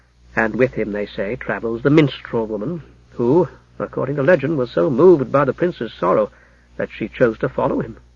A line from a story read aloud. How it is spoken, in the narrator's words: added Alfred softly